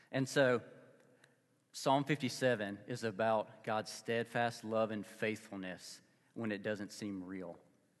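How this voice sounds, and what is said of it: Mississippi Southern accent. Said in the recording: “I'm a guy from Mississippi. You don't get this accent in the Midwest.”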